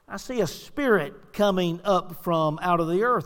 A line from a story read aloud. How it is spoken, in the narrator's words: the woman answered